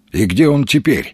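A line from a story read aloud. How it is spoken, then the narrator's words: Plain. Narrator (Russian): спросил Маломальский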